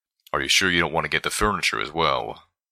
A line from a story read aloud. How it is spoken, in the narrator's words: Calamity grunted